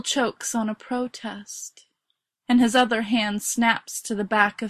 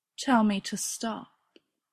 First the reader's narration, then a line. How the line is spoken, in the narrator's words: says gently